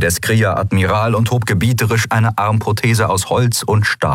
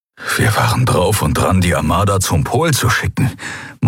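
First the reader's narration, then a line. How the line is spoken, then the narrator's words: Horrified murmur. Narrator (German): murmelte er, entsetzt darüber, wie fatal diese Entscheidung gewesen wäre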